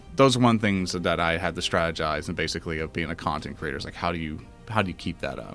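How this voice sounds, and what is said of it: Smooth radio-style voice. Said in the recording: “You have an awesome radio voice”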